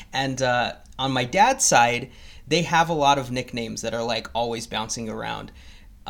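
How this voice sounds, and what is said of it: Mexican accent. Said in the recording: “I'm actually Mexican, if you couldn't tell from my accent”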